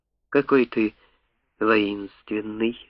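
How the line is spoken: Shy whisper. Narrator (Russian): застенчиво прошептала дракон Комода

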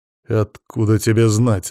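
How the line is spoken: Tense, through gritted teeth. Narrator (Russian): напряженно процедил Макс

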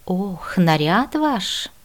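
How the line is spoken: Sighing student. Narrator (Russian): вздохнул ученик

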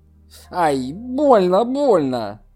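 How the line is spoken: Cry of pain. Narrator (Russian): вскрикнул Сяо Че

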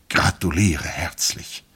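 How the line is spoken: Whispered. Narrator (German): sagte, flüsterte

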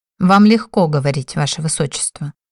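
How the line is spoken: Mumbling. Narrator (Russian): пробурчала я

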